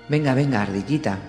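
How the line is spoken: Plain. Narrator (Spanish): dijo Barba Verde

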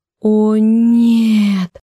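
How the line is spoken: Horrified, ashamed moan. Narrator (Russian): простонала я в ужасе, вмиг вспыхнув от сжигающего стыда

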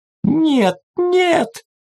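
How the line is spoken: Sudden anguished scream, woman. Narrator (Russian): внезапно надрывно закричала какая-то женщина, у которой окончательно сдали нервы

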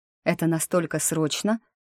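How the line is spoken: Grumbling. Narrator (Russian): проворчала я

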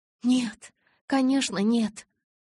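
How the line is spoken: Sighing. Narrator (Russian): Я вздохнул

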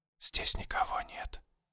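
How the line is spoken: Whisper. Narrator (Russian): прошептал

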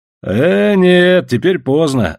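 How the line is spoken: Laughing. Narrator (Russian): засмеялся Иван

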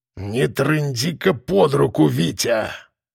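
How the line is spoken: Hissing. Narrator (Russian): шипел Кулебякин

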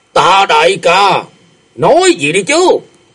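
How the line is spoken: Impatient shout. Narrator (Vietnamese): Mau Khôn lại nóng nảy quát lên

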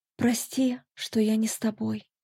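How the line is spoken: Whisper. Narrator (Russian): прошептала

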